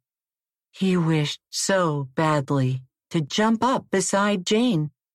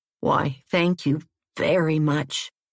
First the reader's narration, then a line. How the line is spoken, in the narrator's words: the frog croaked in a happy tone